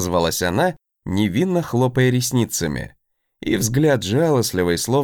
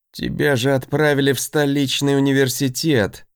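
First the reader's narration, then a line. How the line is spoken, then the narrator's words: Near groan, dread. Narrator (Russian): Почти простонал я, предвидя неприятности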